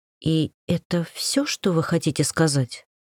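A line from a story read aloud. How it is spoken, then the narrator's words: Quiet. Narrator (Russian): Пришлось произнести это тихо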